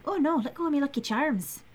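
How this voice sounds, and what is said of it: Stereotypical sing-songy Irish leprechaun voice. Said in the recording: “he's got a really bad Irish accent ... it's the very stereotypical like sing-songy Irish accent”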